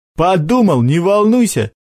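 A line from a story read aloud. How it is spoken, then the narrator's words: Chuckling. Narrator (Russian): хохотнул Сашок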